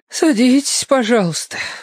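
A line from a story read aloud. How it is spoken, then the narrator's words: Sighing. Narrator (Russian): вздохнула Софья Александровна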